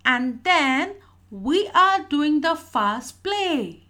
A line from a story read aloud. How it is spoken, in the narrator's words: Sonia shrieked